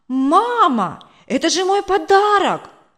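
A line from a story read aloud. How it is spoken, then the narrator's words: Exclamation. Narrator (Russian): воскликнул Коля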